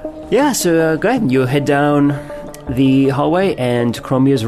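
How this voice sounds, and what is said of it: Usual voice. Nothing is said of it.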